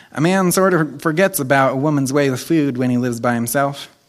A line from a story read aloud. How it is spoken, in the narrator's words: he sort of stammered and then remarked